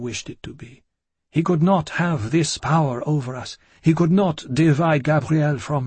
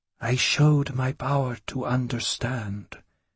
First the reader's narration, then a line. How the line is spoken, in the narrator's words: he answered in a soft murmur